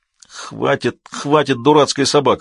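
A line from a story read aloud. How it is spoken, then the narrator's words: Strained groan. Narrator (Russian): простонал он, не без труда отпихивая пса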